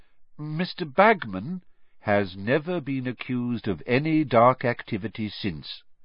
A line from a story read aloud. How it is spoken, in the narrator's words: said Dumbledore, calmly